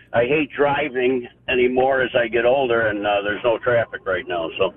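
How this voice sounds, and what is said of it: Illinois accent. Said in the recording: “You have that beautiful Illinois accent.”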